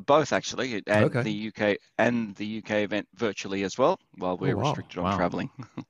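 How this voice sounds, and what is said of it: Australian accent. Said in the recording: “we can hear your Australian accent in full color”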